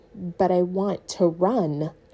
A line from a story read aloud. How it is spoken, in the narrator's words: she said quietly